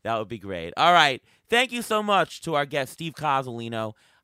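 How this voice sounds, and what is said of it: Slightly raspy, tired voice. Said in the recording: “my little bit of raspy voice, as it's tiring doing all these auction lives”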